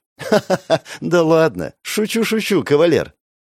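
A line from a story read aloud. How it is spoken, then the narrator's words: Giggling. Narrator (Russian): хихикнула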